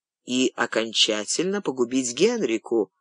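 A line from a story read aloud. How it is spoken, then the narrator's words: Inner whisper. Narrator (Russian): шепнул разум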